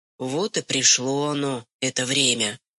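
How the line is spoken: Sighing. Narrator (Russian): вздохнул Афанасий

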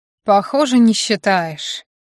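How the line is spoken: Gloomy summing up. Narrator (Russian): мрачно подытожил я

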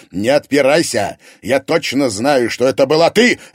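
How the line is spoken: Barked. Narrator (Russian): рявкнул Егор

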